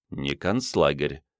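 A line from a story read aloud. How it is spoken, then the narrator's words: Muttered. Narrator (Russian): пробормотал Андрей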